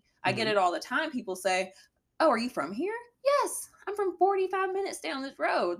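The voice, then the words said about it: Very southern American accent. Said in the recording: “I have a very southern accent”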